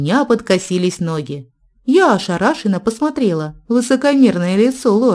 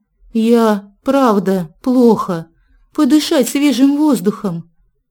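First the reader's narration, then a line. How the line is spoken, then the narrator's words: Forced out very slowly. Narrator (Russian): выдавил очень медленно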